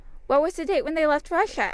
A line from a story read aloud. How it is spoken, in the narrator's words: asked the soldier eagerly